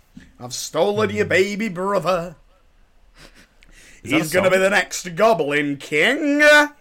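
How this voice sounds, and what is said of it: Imitates another person's voice. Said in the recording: “doing an impression of my friend doing an impression of David Bowie in Labyrinth.”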